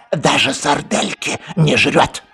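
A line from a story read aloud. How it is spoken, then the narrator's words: Whisper in ear. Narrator (Russian): зашептал ему на ухо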